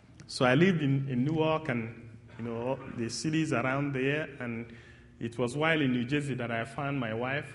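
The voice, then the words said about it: A noticeably different accent. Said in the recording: “my accent is different. That it's not going to be easy to blend right in”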